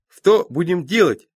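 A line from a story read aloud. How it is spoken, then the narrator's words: Cheerful question. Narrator (Russian): спрашивает маг весело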